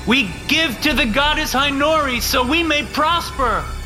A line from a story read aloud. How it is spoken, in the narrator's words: the pledges shouted